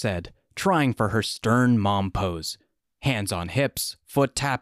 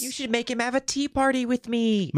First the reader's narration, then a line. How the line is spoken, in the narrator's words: Marie squealed